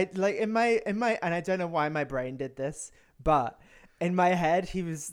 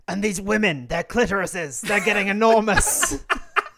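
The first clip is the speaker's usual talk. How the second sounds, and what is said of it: Imitates another person's voice. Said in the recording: “not my best impression”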